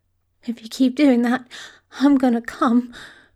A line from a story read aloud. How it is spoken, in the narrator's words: he choked out